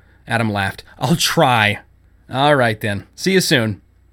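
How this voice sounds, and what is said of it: Usual voice. Nothing is said of it.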